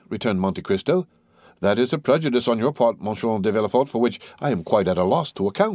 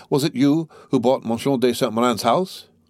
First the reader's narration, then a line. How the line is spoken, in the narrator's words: cried Villefort